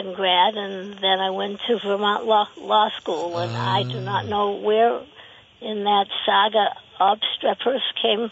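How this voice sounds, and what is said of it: Boston East Cambridge accent. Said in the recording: “I can hear a little East Cambridge in that accent of yours”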